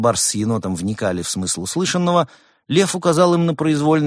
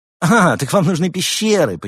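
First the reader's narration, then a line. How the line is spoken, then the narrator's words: Knowing exclamation. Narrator (Russian): понимающе воскликнул Лев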